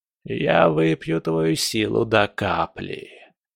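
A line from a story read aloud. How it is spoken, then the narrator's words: Hissed. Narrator (Russian): прошипел Легба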